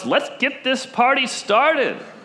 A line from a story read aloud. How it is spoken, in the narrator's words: Jesus changes that water into wine and shouts